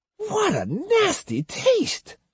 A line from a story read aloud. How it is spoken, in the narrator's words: she whined